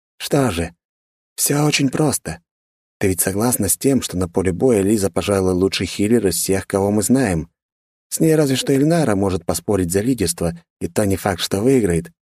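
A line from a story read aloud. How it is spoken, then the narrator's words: Calm. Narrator (Russian): спокойно продолжил Джан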